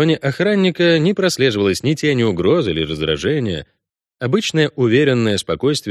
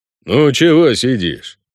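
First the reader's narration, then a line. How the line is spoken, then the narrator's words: Sullen bass voice. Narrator (Russian): угрюмо пробасил охранник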